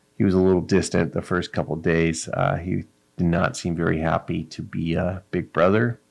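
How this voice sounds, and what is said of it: Quiet, monotone speech. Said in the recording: “I'm talking kind of monotone-y. Trying to just stay quiet”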